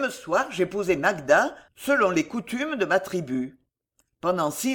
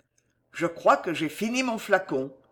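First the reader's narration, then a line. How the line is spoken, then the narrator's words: Plain. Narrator (French): dit Belgodère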